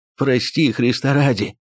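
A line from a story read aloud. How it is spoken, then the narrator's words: Hoarse wheezing. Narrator (Russian): продолжал он хрипеть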